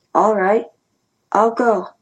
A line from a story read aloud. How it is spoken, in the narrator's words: I said slowly